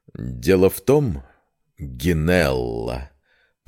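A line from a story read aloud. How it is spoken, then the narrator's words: Languid drawl. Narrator (Russian): протянул Демиус томным голосом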